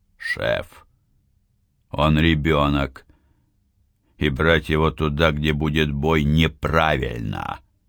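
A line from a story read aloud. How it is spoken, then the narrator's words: Calmer tone. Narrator (Russian): продолжил Сергеич более спокойно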